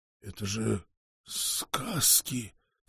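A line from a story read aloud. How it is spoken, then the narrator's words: Hissing through clenched teeth. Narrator (Russian): сквозь стиснутые зубы прошипел мастер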